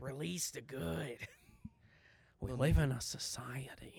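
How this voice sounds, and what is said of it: Scary Joker character voice. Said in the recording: “my Joker impression ... It's just scary”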